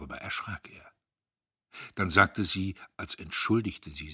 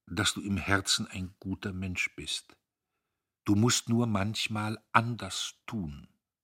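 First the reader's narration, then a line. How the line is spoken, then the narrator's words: Slow. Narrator (German): sagte sie langsam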